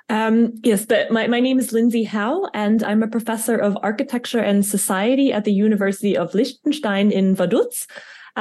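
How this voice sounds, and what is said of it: American accent. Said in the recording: “I have a bit of a problem with my American accent”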